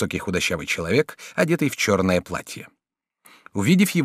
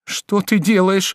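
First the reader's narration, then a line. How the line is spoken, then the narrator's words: Shout. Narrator (Russian): закричала Жервеза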